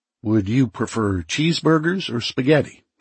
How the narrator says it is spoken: she asked

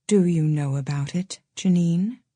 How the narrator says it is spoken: said Aunt Lydia softly

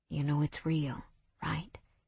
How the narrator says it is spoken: He asked in a low murmur

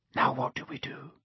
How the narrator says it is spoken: Harry whispered

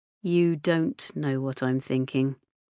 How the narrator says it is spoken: he said quietly

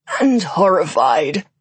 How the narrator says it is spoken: continued, a slight croak now in his voice

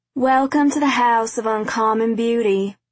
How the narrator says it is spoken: she said in a drawl

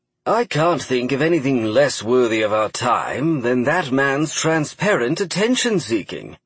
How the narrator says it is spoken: Godfrey said in an almost disinterested tone

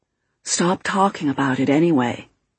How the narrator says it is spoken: the bearded man whispered

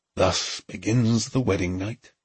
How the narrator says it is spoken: he murmured

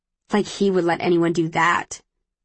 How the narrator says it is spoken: she says, snorting

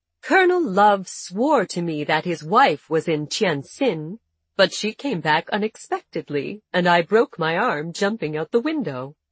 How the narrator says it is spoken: Gaily, she replied

